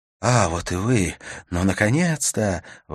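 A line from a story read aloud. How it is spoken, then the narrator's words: Exclaimed. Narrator (Russian): воскликнул ЖК-28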